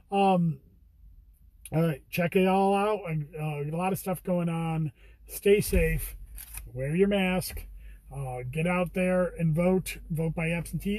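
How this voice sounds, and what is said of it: Raspy, tired voice. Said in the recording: “my voice is a little raspy. I'm a little tired”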